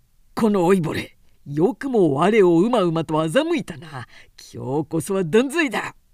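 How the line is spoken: Roaring in fury. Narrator (Japanese): とたけった

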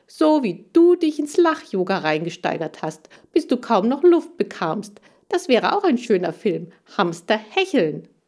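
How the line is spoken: Called down from above. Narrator (German): rief ich von oben zu ihm runter

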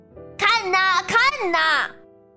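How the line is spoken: Shouting. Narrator (Chinese): 他大喊

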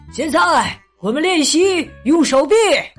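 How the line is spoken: Shouting. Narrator (Chinese): 教练喊着说

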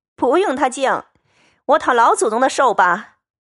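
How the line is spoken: Laughing. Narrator (Chinese): 凤姐儿笑道

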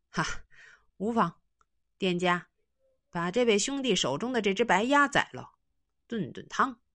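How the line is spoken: With a laugh. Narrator (Chinese): 那人一笑说

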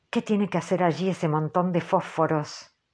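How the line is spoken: Murmur. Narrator (Spanish): murmuró Stubb

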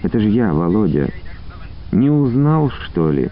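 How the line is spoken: Near-whisper female voice. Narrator (Russian): Тихо Почти шепотом проговорила она

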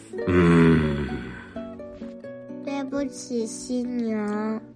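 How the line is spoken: Deep sigh. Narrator (Chinese): 紫色犀牛从它的巨大的鼻孔里深深的叹了口气

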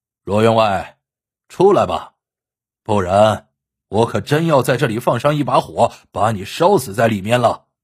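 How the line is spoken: Loud shout. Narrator (Chinese): 许莲大声喝道

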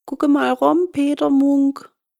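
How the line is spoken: Little man calling. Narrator (German): rief das Männlein

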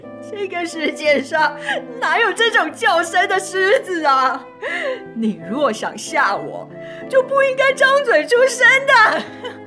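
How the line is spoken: Laughing. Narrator (Chinese): 狐狸笑着说

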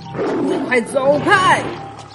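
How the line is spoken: Loud roaring yell. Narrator (Chinese): 狮子再次哇哇大叫

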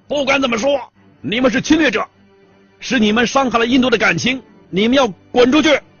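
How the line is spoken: Furious shouting. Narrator (Chinese): 这位记者呀，激怒的涨红了脸，扯着嗓子喊了

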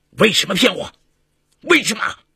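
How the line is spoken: Angry demanding question. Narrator (Chinese): 郎君……怒气冲冲的问

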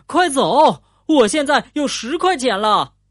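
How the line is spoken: Excited shout. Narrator (Chinese): 富兰克林激动的大喊起来

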